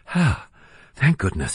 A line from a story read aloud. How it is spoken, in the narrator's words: heaved a sigh of relief